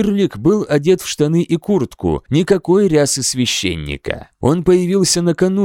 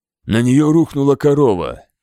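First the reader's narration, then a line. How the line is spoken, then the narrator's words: Glum. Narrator (Russian): уныло сказал я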